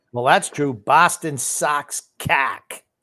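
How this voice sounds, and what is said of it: Boston accent. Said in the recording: “read it like that in your Boston accent”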